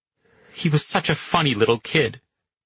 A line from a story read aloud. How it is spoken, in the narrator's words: Pino said bitterly